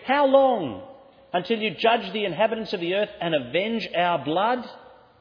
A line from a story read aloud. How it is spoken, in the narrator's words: They're screaming